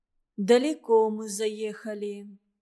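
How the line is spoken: Sad surprise. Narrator (Russian): печально удивилась Валентина

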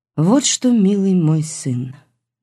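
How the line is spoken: Almost calm voice. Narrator (Russian): сказала почти спокойным голосом

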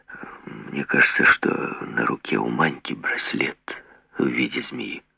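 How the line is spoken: Quiet speech. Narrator (Russian): негромко сказал

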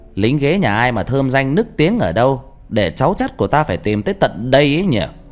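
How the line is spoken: Loud ringing voice. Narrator (Vietnamese): Mẹ tôi nói lớn bằng giọng sang sảng

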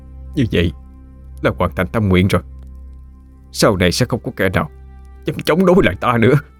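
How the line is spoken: Muttering to himself. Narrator (Vietnamese): Miệng hắn lẩm bẩm nói

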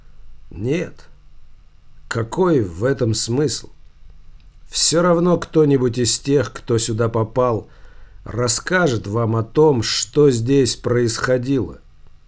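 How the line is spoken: Calm reply. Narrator (Russian): спокойно ответил Малюта

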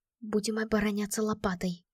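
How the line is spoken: Whisper to friend. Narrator (Russian): прошептала подруге

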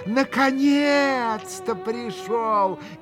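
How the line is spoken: Joyful shout. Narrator (Russian): крикнула она, радостно здороваясь с Алешей

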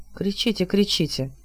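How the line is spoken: Muttering. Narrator (Russian): пробормотал Хилот

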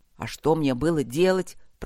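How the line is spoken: Said through clenched teeth. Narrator (Russian): процедил Гроул

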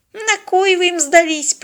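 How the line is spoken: Contemptuous snort. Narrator (Russian): презрительно фыркнул дед

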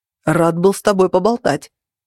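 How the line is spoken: Calling after someone. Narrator (Russian): крикнул ей вслед Джен

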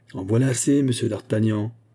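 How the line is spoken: Cold. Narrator (French): reprit Fouquet d'un ton froid

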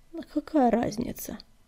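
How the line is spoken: Ingratiating question. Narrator (Russian): вкрадчиво спросил Звездоцап

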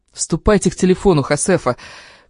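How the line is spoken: Angry shout. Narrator (Russian): в сердцах прикрикнул

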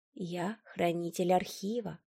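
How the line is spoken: Calm old man. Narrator (Russian): спокойно ответил старик

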